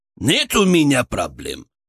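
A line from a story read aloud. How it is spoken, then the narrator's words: Snapped, audibly unsure. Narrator (Russian): огрызнулся Арсен, но вот его неуверенность была почти осязаемой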